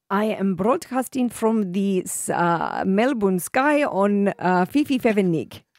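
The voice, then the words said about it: Put-on Russian accent. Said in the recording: “you do a good Russian ... I'm not very good at the Russian ... No, you're really good at it. You nail it.”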